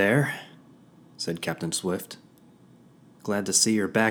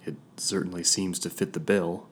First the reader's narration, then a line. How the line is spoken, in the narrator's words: murmured